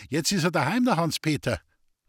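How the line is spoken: Calling out. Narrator (German): rief ihm die Hausmagd zu

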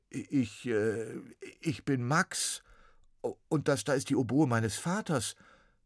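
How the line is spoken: Stuttering. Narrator (German): stotterte Max

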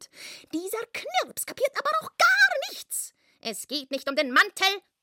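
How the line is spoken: Shouting. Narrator (German): schrie er

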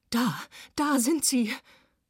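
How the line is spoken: Screamed. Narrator (German): schrie Berthold

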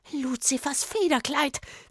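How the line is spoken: Woman hissing. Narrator (German): zischte die Frau

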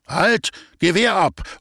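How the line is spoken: Forester shouting. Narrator (German): ruft der Förster

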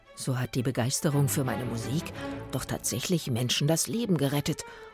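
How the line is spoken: Muttering to himself. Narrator (German): murmelte er vor sich hin

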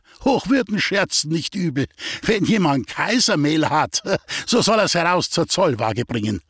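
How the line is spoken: Border guard, amused laughter. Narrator (German): sagt der Grenzer und lacht vergnügt

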